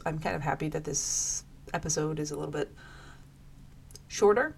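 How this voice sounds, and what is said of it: Voice affected, sounds unwell. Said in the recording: “I do apologize for my voice ... I get allergies”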